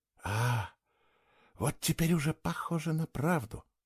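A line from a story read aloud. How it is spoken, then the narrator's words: Ironic whisper. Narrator (Russian): прошептала она с ироничной улыбкой на губах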